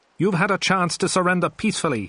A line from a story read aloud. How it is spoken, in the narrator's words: he shouted